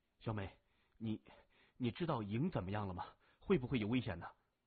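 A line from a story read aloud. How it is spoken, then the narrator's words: Hurried question. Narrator (Chinese): 高振急忙问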